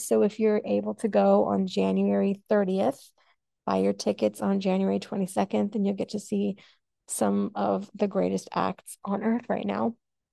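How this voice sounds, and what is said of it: Slightly raspy voice. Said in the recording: “My voice is getting a little raspy”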